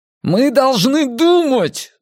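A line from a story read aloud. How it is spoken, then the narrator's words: Shouting. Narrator (Russian): закричал Эрик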